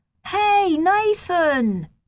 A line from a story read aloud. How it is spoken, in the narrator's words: he shouted